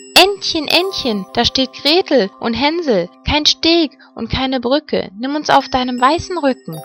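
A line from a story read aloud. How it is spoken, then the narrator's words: Calling out. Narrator (German): rief sie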